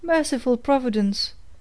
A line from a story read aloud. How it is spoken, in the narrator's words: exclaimed the alarmed aunt